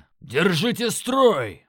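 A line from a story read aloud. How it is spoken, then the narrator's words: Yell drowned by roaring. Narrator (Russian): заорал Крак, но голос потонул в рёве демонов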